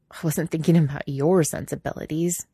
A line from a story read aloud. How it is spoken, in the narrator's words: Quentin mutters